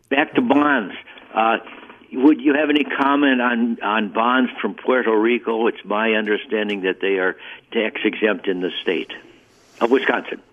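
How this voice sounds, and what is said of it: Wisconsin accent. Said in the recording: “I didn't detect a Puerto Rican accent, I got more of a Wisconsin accent”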